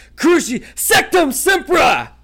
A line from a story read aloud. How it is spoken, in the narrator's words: bellowed Harry from the floor